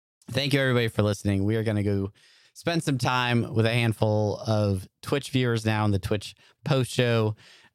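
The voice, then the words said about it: Strained, failing hoarse voice. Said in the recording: “My voice is completely giving up on me.”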